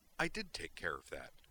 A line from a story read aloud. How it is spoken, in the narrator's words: replied indignantly